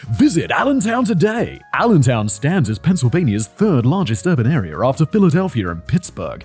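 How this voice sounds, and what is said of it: Exaggerated American ad-read accent. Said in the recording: “your best ad read voice ... accent I'm doing. It's like some weird-ass American accent.”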